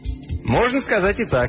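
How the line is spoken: Cheerful reply. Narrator (Russian): весело ответил Мелдон

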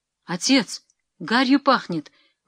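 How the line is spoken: Alarmed exclamation. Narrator (Russian): воскликнул Иван

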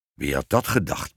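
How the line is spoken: Grumbling king. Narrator (Dutch): bromde de koning

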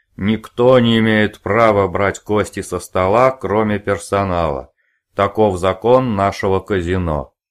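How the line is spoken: Roared. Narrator (Russian): проревел

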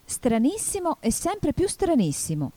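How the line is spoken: Exclaimed. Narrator (Italian): esclamò Alice

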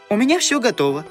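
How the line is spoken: Joyful. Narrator (Russian): радостно сообщила Настенька

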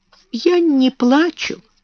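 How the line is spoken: Trembling voice. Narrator (Russian): дрожащим голосом ответила Эрмингарда

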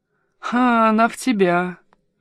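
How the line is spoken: Bitter laugh. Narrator (Russian): горько засмеялся я

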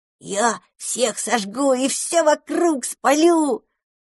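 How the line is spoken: Joyful little dragon. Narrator (Russian): радостно ответил дракончик

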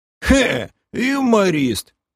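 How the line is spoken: Booming drone. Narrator (Russian): Прогудел Пом

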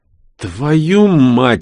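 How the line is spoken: Breathless exhale. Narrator (Russian): выдохнул Астрахан

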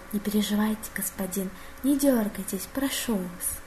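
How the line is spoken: Soft tender whisper in ear. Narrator (Russian): дворецкий тихо и нежно прошептал на ухо Сиэля

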